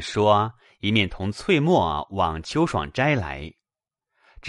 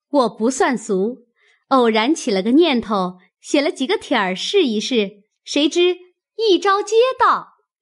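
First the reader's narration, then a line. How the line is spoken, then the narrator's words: Laughing. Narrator (Chinese): 探春笑道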